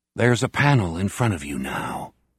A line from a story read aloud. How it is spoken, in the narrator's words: he whispered